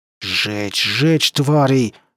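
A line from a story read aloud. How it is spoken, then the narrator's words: Hissed. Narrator (Russian): шипел Моррисон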